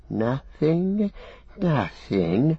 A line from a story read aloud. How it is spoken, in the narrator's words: said Gollum softly